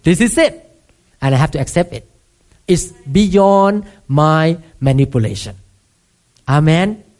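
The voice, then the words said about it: Thai-accented English. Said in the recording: “he put you to be born in Thailand ... you have to speak accent in America ... I have to just rejoice in my accent. And people have to bear with me.”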